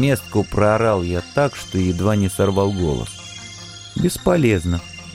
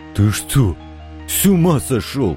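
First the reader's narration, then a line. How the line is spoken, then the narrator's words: Booming exhale, big man. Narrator (Russian): гулко выдохнул самый рослый из мужиков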